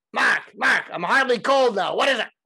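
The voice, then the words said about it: Imitated voice with Brooklyn accent. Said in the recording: “he says in his Brooklyn accent”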